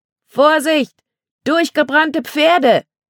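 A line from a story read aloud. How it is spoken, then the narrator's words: Warning shout. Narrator (German): rief Erik zur Warnung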